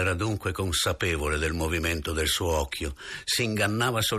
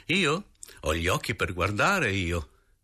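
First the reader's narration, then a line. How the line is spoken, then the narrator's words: Unabashed laughing reply. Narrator (Italian): Senza arrossire e ridendo, ella rispose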